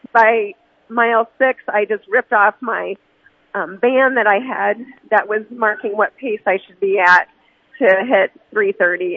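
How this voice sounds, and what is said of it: Sick, congested-sounding voice. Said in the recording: “I ended up with a sinus infection ... I have a fever ... You can hear it in my voice. I'm struggling a little bit.”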